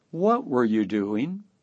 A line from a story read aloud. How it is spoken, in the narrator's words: softly said